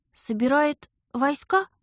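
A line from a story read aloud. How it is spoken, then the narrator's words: Shaky, uncertain voice. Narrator (Russian): Дрогнувшим голосом предположила я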